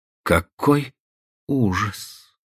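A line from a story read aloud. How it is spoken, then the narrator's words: Quiet. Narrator (Russian): тихо произнесла она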